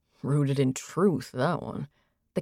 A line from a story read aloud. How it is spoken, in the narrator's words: the king said under his breath